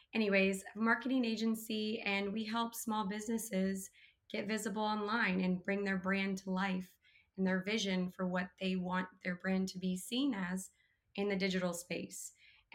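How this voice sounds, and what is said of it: Hoarse, nearly lost voice. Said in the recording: “I have lost my voice completely. I woke up like this morning.”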